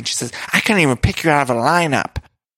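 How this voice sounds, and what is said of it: Failed imitation of another person's voice. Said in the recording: “What the fuck accent am I doing now for Dorinda? I can't do a Dorinda impression.”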